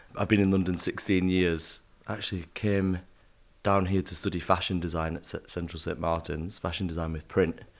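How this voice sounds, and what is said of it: Northern English accent. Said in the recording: “I'm from up north, hence my accent.”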